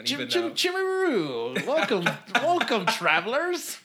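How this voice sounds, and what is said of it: Poor put-on New Zealand accent. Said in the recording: “that was possibly the worst New Zealand accent.”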